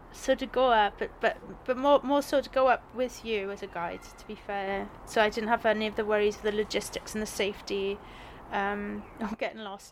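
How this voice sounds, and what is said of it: South Wales accent. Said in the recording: “born and bred in Wales. You know, there's no hiding away from the accent ... I'm from South Wales”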